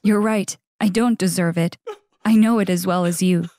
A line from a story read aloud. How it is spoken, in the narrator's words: he said